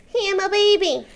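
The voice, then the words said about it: Baby voice. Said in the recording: “you do a little baby voice.”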